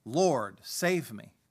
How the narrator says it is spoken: he became frightened, and beginning to sink, he cried out

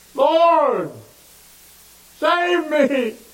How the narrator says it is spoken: And he cried

